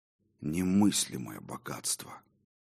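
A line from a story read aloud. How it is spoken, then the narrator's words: Amazed mutter. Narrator (Russian): изумленно пробормотал я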